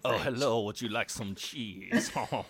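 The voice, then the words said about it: Exaggerated fake French accent. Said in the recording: “someone with like a cod French accent, a little bit like your one ... I know people are going to hate this accent”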